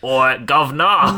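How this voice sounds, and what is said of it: Put-on Cockney accent. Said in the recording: “Give it a Cockney accent. ... British pantomime”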